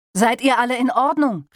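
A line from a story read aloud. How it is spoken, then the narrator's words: Called out. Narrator (German): rief er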